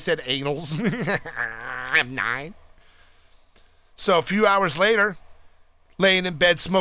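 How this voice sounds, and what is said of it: Usual voice. Nothing is said of it.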